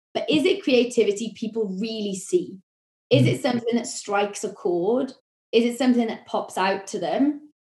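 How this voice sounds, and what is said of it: Welsh accent. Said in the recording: “That might be my Welsh accent.”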